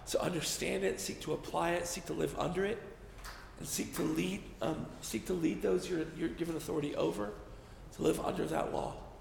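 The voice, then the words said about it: Strained, tiring voice. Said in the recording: “My voice is going.”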